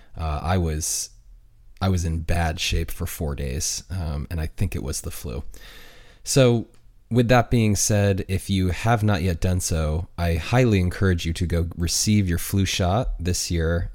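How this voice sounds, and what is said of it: Slightly congested voice. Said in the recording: “my voice sounds a little off or like a little congested”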